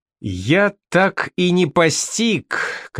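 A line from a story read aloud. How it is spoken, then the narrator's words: Loud shouting. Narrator (Russian): кричал величайший художник немецкого возрождения Альбрехт Дюрер, чтобы все его слышали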